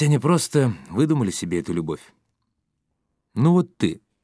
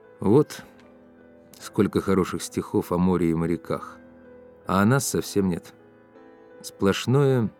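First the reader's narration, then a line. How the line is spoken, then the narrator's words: Sad. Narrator (Russian): сказал грустно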